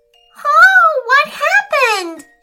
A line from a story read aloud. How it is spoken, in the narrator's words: she screamed